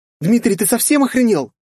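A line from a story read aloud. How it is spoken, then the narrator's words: Shocked shout. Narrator (Russian): закричала Полина в шоке от такого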